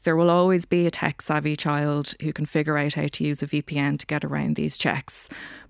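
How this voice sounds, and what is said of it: Irish accent. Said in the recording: “as listeners can hear from your accent, that you're Irish”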